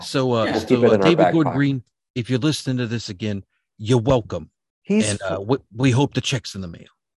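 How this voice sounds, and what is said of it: Put-on accent, business voice. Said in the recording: “Where's this accent coming from? That you're talking to him with. ... That's my I mean business voice.”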